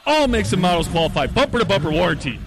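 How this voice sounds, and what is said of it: Big booming radio announcer voice. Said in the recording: “a big radio voice.”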